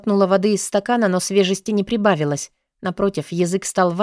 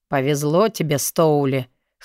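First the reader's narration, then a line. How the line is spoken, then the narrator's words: Snort. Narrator (Russian): хмыкнул Алви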